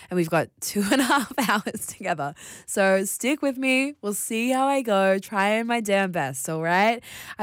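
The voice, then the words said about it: Strained voice, losing her voice. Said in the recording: “I'm losing my voice.”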